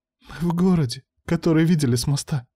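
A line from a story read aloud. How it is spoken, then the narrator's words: Wife sobbing. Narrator (Russian): всхлипнула супруга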